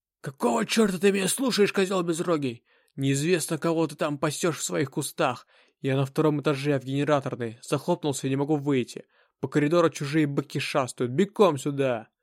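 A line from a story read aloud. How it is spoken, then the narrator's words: Hoarse over radio. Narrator (Russian): Нажал на тангетку и прохрипел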